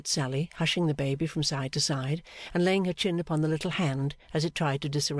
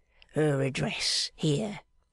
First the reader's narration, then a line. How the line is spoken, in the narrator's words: in a low voice, as if he were making responses at church